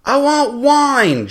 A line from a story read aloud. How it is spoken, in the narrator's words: Johnny Razor yelled down the beach